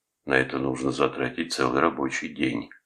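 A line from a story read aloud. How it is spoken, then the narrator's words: Sighing. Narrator (Russian): вздохнул Вилли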